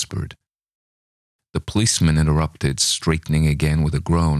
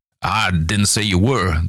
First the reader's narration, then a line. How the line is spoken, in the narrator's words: the little man snapped